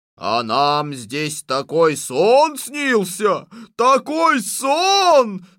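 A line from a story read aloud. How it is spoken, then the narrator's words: Shout. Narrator (Russian): закричал боярин Чубаров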